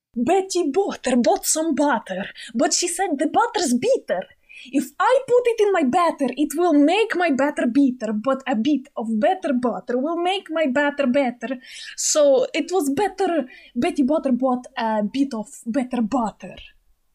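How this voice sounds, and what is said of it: Put-on Russian accent. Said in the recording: “Should I try the Russian accent?”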